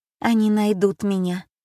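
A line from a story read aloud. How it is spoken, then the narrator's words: Dejected voice. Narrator (Russian): упавшим голосом сказала Альма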